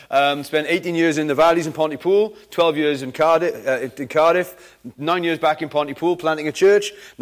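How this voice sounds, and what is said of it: Welsh Valleys and Cardiff accent. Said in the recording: “If you're wondering where the accent's from, trying to place it, I'm kind of a Valleys Cardiff mongrel ... my accent's all over the shop”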